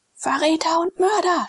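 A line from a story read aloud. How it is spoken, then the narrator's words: Shouted. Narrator (German): schrie Glaukus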